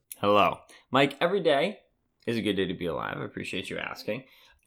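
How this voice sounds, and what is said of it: Rough, hoarse voice. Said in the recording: “my voice sounds a little rough to everybody, I'm not sick. I'm not tired. I don't have allergies... when I go to weddings, I cry a lot”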